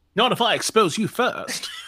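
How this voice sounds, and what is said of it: Imitates another person's British voice. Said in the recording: “Now you're just the boss on IT Crowd. ... exactly what I'm doing, Matt Berry ... one of his British accents ... It's really good.”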